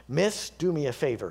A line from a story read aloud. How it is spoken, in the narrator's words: he says